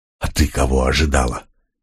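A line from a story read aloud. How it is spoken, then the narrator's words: Nervous hiss. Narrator (Russian): нервно прошипел Млок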